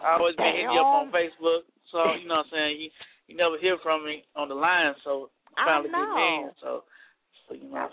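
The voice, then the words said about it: Nashville, Tennessee accent. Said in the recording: “I know you got the accent. ... Nashville, what they call it, Cashville, Tennessee”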